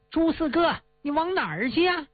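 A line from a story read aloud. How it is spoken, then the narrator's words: Shouting from behind. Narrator (Chinese): 这毛三孩在后边喊呐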